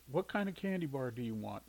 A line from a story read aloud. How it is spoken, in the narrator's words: Sighing, Shirley came out of the bathroom and asked